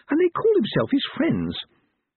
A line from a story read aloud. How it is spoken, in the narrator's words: Letitia said indignantly